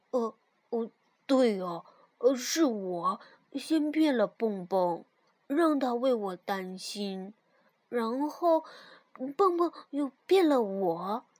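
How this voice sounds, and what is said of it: Quiet muttering to oneself. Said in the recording (Chinese): “小声嘀咕着”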